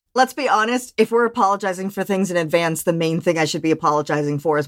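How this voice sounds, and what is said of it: Valley Girl mixed with West Virginia accent. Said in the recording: “whatever accent this is I have going on here ... It's very Valley Girl in West Virginia, like, which is weird.”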